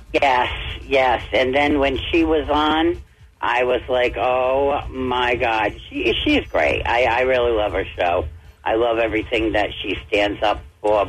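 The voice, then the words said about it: Rhode Island accent. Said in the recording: “that accent of yours? ... I'm actually from Rhode Island.”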